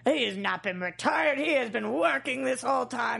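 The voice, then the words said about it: Gruff ogre-like voice. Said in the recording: “your impression of both Mike and myself is that I sound like a, a little girl and Mike sounds like a gruff ogre”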